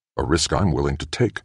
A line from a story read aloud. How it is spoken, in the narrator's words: Kossoff said